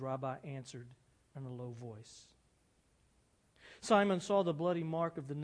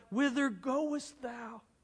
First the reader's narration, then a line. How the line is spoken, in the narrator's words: Flooded with bliss, Simon confronted his rabbi and he cried